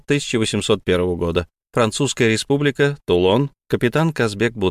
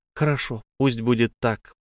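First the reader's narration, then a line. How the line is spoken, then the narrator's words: Whisper. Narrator (Russian): прошептала Беатрис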